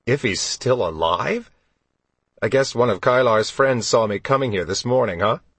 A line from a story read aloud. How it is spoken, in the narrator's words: Count Drake chuckled